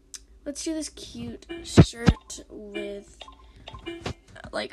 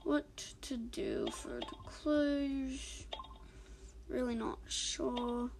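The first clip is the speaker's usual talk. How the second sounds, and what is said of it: Wannabe British accent. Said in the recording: “speaking in a wannabe British accent”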